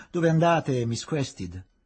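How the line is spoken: Shouted. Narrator (Italian): gridò

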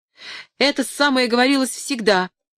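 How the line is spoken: Ringing exclamation. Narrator (Russian): воскликнул Артур зазвеневшим голосом

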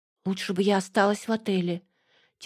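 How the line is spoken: Quietly spoken. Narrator (Russian): тихонько проговорила

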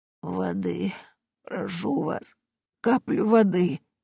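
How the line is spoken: Barely audible whisper. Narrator (Russian): бедняжка еле слышно прошептала

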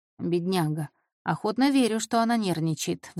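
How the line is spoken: Sighing. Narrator (Russian): вздохнул Джорджо

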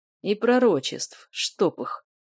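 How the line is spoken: Grumble. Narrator (Russian): проворчал Эйв

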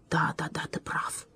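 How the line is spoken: Barely audible mumble. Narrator (Russian): еле слышно пробормотал он

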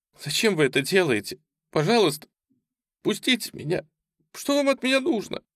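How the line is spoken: Sobbing. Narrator (Russian): всхлипывала она

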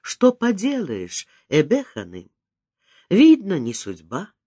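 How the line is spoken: Sad reply. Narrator (Russian): грустно ответить

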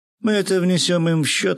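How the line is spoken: Laughing. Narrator (Russian): рассмеялся я

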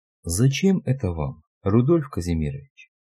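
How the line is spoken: Quiet question. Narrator (Russian): тихо спросил Ра

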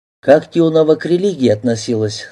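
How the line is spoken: Plain question. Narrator (Russian): снова спросил Антон

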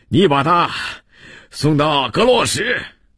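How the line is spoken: Out of breath. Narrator (Chinese): 加纳气喘吁吁地说

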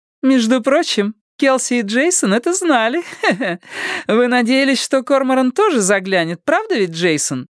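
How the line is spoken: Cheerful laughing. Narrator (Russian): Весело рассмеялась Буря

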